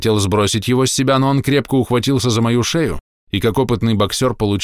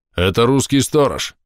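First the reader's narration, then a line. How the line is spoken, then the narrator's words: Low voice. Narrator (Russian): низким голосом сказал человек со шрамом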